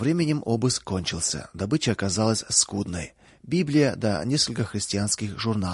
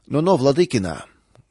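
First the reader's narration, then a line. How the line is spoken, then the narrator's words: Rude interruption, senior man. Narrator (Russian): грубо прервал старший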